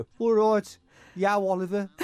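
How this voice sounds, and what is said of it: Birmingham accent. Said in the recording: “I was from Birmingham, so ... That's how I sounded.”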